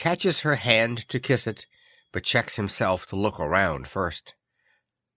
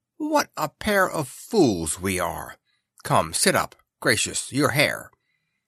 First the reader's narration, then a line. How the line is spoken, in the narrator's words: Vivi wakes up with a shock, exclaiming